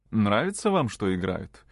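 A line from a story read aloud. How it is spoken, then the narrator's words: Sly, mocking question. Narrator (Russian): спросила она, лукаво и насмешливо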